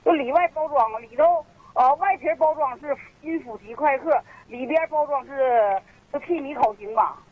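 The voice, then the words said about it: Strong regional Liaoning accent. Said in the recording (Chinese): “你这个外地口音。你是辽南口音是什么？这是营口、鞍山哪儿的口音？我听不清。”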